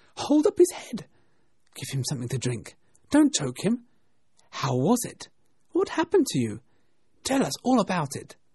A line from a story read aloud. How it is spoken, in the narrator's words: came a little squeaking voice